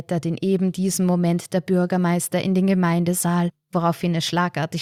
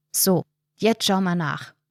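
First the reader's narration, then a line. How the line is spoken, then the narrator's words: Firm voice. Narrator (German): sagt Erik mit fester Stimme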